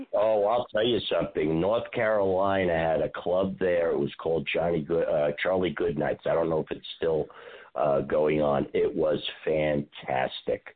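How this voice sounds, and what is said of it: Strong New York accent. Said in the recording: “I can't even imagine with your accent, really. ... He's from New York.”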